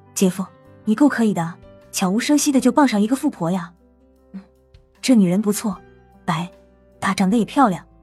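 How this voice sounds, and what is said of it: Speaking in a low whisper. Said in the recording (Chinese): “小声说”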